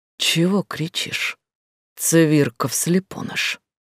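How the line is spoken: Quiet angry whisper. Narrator (Russian): Раздался тихий но сердитый шепот

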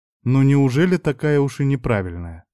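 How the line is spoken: Sighing. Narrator (Russian): Я вздохнул

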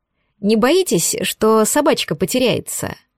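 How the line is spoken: Snide question. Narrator (Russian): Ехидно осведомилась я

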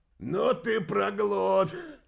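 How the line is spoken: Group loud laughter. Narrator (Russian): захохотали спутники Румянова

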